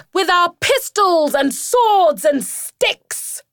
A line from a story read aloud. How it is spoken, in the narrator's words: shouted Rat